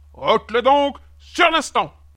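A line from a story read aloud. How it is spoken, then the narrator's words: King demanding, even louder. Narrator (French): exigea le roi d'une voix plus forte encore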